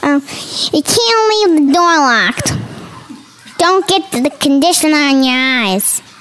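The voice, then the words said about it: Child imitating her grandmother. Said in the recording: “Can you do an impression of what Grandma sounded like when you were showering?”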